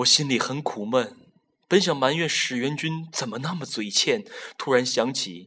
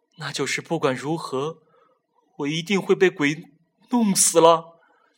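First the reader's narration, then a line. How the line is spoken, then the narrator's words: Trembling, terrified voice. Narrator (Chinese): 陶丽脸色惨白，颤声说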